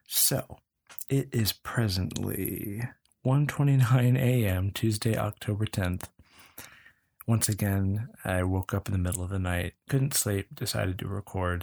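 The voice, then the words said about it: Quiet, low voice. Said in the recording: “my voice is low”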